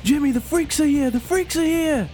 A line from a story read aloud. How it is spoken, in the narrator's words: he's yelling out